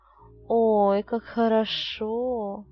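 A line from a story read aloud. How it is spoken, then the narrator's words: Drawn-out girl's voice. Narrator (Russian): протянула девушка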